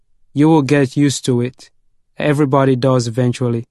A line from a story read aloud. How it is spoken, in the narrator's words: said